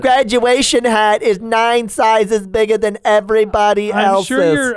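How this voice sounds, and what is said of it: Imitates a mother's voice. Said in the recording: “imitating someone's mom”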